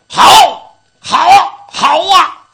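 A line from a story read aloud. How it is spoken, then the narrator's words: Young onlookers shouting. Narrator (Chinese): 这伙看热闹的小伙在旁边就搁那吼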